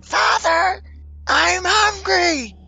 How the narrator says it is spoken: you hear the voice scream

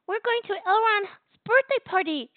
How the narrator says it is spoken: squealed

